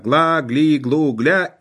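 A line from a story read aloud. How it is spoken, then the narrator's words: Frightened nasal roar. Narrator (Russian): рев напуганного гнусавого ангела-рекрута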